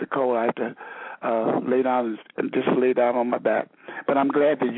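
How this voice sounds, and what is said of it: Voice with a slight cold. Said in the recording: “has a little bit of a cold at this time ... I caught a chill. That's why I have a little cold.”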